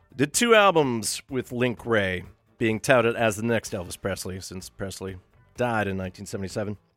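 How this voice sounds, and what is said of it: Speaker's own twangy accent. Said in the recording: “twang coming back in my own accent”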